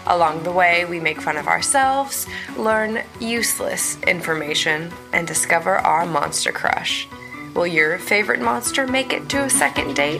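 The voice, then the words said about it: Congested, nasal sick voice. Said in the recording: “I'm kind of sick, so I think my voice sounds weird ... you sound a little weird, but not like bad. You just sound like you're a little sick ... I just sound like I have a bunch of snot in my face”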